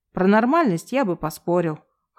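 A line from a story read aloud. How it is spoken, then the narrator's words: Short laugh. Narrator (Russian): хохотнул Василий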